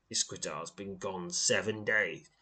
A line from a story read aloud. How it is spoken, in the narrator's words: he says grimly